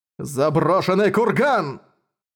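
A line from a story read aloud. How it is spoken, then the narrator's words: Shouting. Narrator (Russian): прокричал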